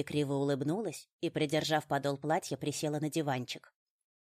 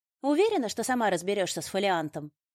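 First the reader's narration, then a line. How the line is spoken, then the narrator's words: Sharp question. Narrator (Russian): резко спросила я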